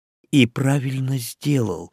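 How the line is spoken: Whisper. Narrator (Russian): шепнул я

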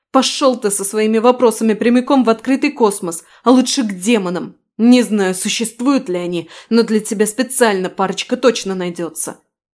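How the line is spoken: Growled. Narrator (Russian): прорычала

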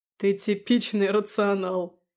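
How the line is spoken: Laughing. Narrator (Russian): рассмеялся Папазян

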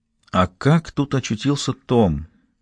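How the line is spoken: Quiet, to herself, asking. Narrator (Russian): тихо, точно про себя спросила она

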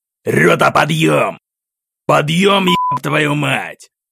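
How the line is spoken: Harsh clanging shout. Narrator (Russian): Грубо лязгнуло по ушам

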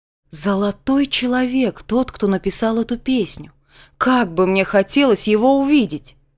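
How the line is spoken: Old man exclaiming. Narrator (Russian): воскликнул дедушка

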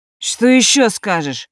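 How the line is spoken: Furious bark. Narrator (Russian): рявкнул взбешенный парень

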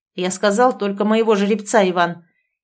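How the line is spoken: Sharp shout at servant. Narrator (Russian): прикрикнул на слугу

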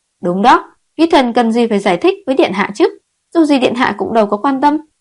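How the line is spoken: Angry. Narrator (Vietnamese): sắc mặt giận dữ

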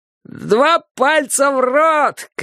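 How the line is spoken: Shout. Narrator (Russian): крикнул он

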